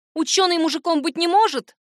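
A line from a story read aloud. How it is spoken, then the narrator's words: Snapping retort. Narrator (Russian): огрызнулась я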